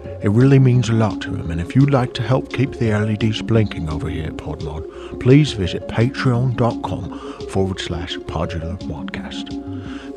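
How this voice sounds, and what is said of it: Michael Caine impression. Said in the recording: “Hello, my name's Michael Caine ... This is seriously Michael Caine. It's not Tim doing a voice. This is really Michael Caine”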